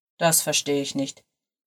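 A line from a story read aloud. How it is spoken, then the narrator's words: Murmured. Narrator (German): murmelte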